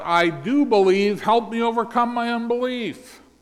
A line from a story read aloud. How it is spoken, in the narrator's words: The exasperated father cried out